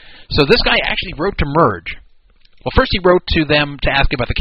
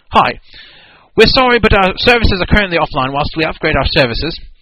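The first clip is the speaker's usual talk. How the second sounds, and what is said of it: Put-on accent reading a message. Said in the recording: “I got to do this in the right accent.”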